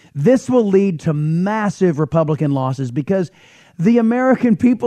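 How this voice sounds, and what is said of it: Usual voice. Nothing is said of it.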